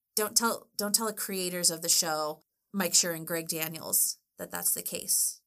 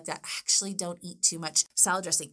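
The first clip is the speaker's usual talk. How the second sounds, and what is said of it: Whispering. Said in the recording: “I'm whispering.”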